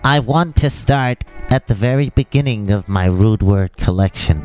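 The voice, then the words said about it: Bad SpongeBob impression. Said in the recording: “SpongeBob ... your shit fucking impression”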